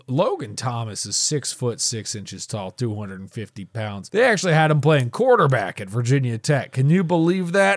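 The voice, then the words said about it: Imitates a sportscaster's voice. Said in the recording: “That is a bad Chris Collinsworth impression.”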